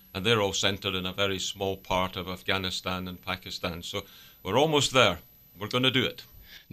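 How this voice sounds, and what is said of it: Scottish accent. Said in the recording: “as you might detect from my accent, it's not round these parts. And home is Scotland.”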